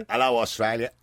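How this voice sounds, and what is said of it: Put-on Australian accent. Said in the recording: “I sound a good Australian accent, isn't it?”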